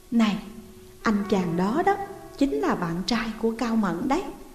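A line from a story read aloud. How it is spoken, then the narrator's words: Quiet aside. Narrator (Vietnamese): Cô nói khẽ với tôi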